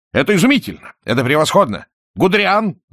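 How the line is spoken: Shouting. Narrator (Russian): закричал

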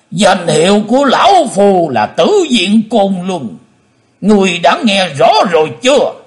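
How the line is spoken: Hateful roar. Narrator (Vietnamese): Lão nhân mặt đỏ, máu hận thù gầm to lên

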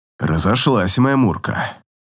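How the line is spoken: Hoarse voice. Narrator (Russian): хрипло произносит он

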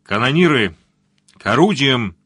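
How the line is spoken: Thundering through megaphone. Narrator (Russian): прогремел с мостика усиленный рупором голос капитана Зо

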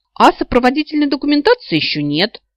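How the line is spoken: Indignant reminder. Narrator (Russian): возмущенно напомнила

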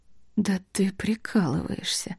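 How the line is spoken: Near whisper. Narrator (Russian): сказала Марни почти шепотом

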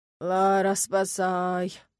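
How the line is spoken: Groaning. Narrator (Russian): простонал Даррен

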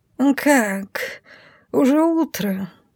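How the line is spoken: Sleepy purr. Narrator (Russian): сонно мурлычет он

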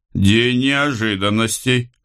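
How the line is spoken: Chuckling. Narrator (Russian): хохотнул Карл

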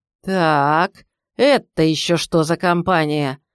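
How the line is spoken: Menacing bark, senior gendarme. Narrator (Russian): грозно рявкнул старший из жандармов

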